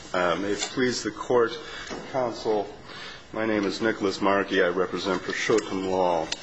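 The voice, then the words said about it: Strained, fading voice. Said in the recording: “I apologize for my voice. I'm losing it fast.”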